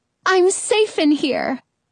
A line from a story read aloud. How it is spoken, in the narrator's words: I sigh